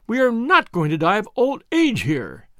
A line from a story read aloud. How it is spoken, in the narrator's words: she cried